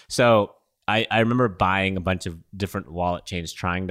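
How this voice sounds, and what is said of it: Usual voice. Nothing is said of it.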